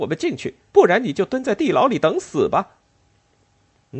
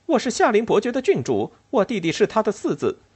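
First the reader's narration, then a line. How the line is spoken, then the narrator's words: Furious. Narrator (Chinese): 阿莲娜勃然大怒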